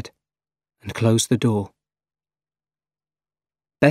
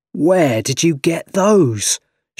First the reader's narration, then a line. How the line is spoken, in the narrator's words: shouted